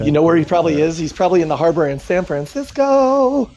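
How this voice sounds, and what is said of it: Exaggerated effeminate voice. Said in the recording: “You just talked in a highly effeminate voice while you mentioned San Francisco.”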